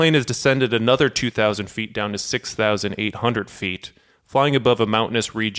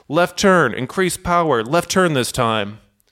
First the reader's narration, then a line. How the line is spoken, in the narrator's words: Captain Takahama shouts